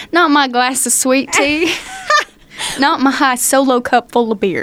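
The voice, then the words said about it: Put-on Southern country accent. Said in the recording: “you're really good at the accent ... you do the accent so well”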